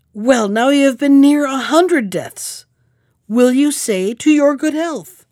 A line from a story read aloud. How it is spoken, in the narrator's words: whose fury was greater than ever, but who cried